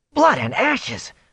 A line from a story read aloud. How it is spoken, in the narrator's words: Matt yelped